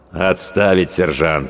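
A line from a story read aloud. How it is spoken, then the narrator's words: Cold commanding voice. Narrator (Russian): холодно произнес Ротный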